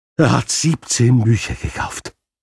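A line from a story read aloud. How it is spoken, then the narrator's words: Breathless blurt. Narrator (German): stieß die Buchhändlerin atemlos hervor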